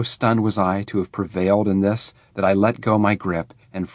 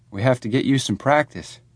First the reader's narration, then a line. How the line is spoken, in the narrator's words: Davy muttered